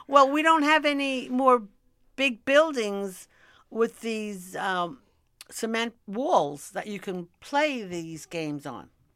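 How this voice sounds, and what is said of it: New York Bronx accent. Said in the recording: “I was brought up in the Bronx ... they have an accent. I have an accent. ... you no longer have a New York accent. ... Well, I'm here to tell you you're wrong.”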